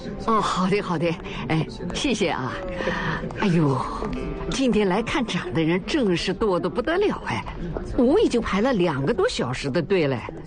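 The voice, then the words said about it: Mandarin with Nanjing regional accent. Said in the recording (Chinese): “听口音，您是南京人呐？...不小心把方音给露出来了”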